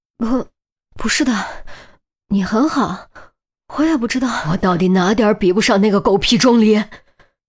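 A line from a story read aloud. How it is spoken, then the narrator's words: Frightened, choked sobbing. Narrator (Chinese): 于西被吓得猛抖了几下，眼泪终于不受控制掉了下来，……哽咽着说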